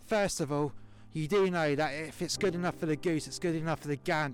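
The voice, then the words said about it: Put-on Welsh accent. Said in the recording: “in my proper London accent to a Welsh accent.”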